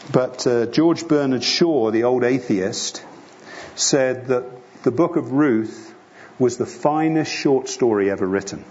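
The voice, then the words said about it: English accent. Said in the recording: “my English accent.”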